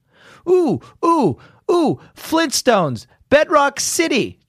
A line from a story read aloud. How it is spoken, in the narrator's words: Jeff blurted out